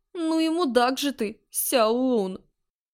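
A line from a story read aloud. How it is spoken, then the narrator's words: Groaning while struggling up. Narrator (Russian): Простонала, пытаясь подняться на ноги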